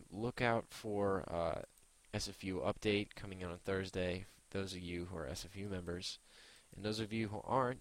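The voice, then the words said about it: Tired, slightly irritated-sounding voice. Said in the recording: “if I sound a little angry ... I'm just really tired”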